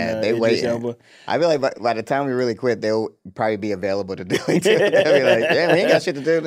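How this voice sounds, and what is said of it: Usual voice. Nothing is said of it.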